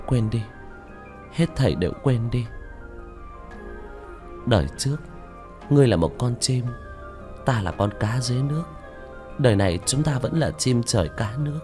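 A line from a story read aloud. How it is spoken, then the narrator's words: Murmuring. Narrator (Vietnamese): Nam Ly Nguyệt trong phút chốc lẩm bẩm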